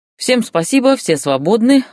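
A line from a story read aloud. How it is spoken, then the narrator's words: Laughing. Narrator (Russian): рассмеялся он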